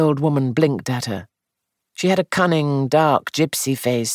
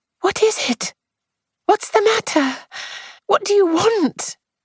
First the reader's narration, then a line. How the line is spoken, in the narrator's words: She said, a little breathlessly